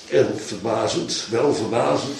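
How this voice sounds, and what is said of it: Slight Achterhoek Dutch accent. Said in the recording (Dutch): “met een beetje achterhoeks accent”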